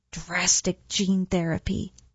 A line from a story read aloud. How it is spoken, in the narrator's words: Sloane croaked